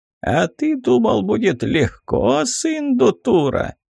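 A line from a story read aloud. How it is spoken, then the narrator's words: Giggling skull. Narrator (Russian): хихикнул череп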